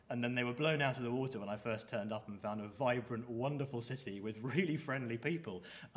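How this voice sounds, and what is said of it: Refined southern English accent. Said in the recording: “my refined English accent, I'm a southerner”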